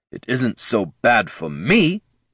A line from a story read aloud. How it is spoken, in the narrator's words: he snarled